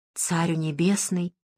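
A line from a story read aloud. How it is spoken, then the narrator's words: Whisper. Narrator (Russian): из последних сил прошептала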